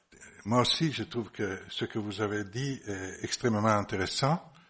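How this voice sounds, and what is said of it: Italian accent speaking French. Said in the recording (French): “Italien, vous la comprenez de mon accent, sans doute.”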